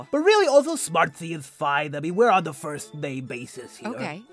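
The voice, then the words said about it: Character voice of an echidna. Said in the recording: “I am an echidna... We just have a very long tongue that comes out of our snout... So that's why my voice sounds like this.”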